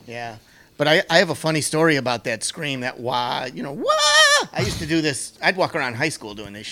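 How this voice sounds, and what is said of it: Usual voice. Nothing is said of it.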